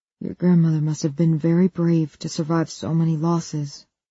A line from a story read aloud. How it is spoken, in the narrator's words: Luis says, his voice gentle